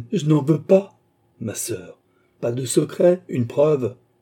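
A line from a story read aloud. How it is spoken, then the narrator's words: Queen's sharp cry. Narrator (French): s'écria la reine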